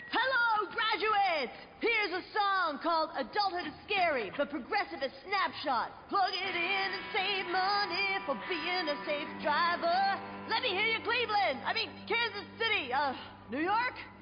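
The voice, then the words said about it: Rock singer's stage-shout voice. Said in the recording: “my impression of a geographically challenged rock band delivering a commencement speech”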